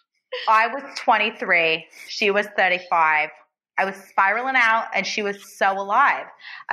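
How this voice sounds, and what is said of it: Put-on Jersey accent while singing. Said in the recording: “You said Jersey. ... I'm a little drunk and I'm trying to do accent work”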